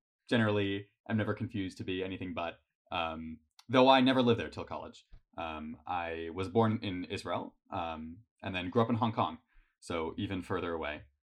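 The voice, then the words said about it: American accent. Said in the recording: “I sound American.”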